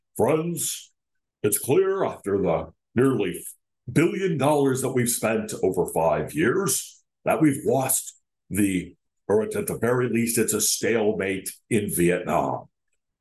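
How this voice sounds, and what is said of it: Walter Cronkite impersonation. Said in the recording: “Am I sounding like Richard Nixon or Walter? I'm trying to do a Walter Cronkite impersonation.”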